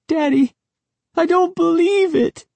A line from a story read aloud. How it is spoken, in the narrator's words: Sari wailed